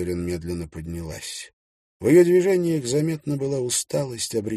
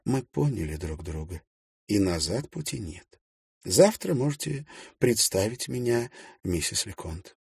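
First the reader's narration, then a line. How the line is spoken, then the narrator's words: Barely audible. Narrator (Russian): проговорила едва слышно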